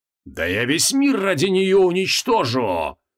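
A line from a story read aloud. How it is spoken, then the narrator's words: Roaring. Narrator (Russian): взревел Креол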